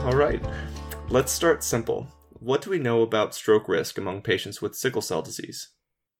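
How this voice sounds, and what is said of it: Southern Arkansas drawl. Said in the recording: “I've got this horrible Arkansan Southern drawl and I slur my words”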